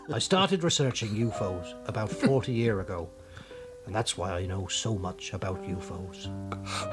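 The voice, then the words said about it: Strong rural Norfolk accent. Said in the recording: “I'm from Norfolk, right by the coast, in a little village which we've never left. That's why my accent is so strong. ... It is strong”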